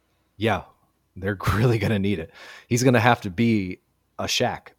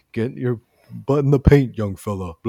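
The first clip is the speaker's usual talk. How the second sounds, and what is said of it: Imitates another person's voice. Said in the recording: “my Shaq impression. It's pretty good, right?”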